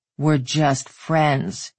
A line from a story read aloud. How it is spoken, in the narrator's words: he muttered